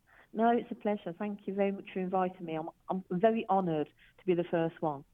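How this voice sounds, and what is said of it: British accent. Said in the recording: “From the UK. ... I just hope you guys can get past my accent.”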